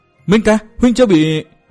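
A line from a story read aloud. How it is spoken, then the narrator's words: Joyful surprised cry. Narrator (Vietnamese): Bích Duyên Hồng nghe tiếng gọi của Từ Mã Minh, nàng vừa mừng vừa ngạc nhiên rú lên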